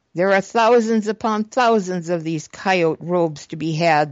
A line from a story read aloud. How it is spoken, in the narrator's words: they laughed